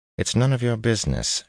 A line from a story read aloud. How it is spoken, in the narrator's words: she said curtly